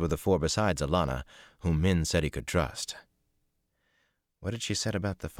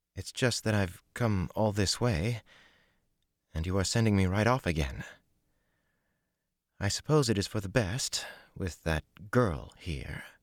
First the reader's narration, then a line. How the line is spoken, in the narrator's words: sighed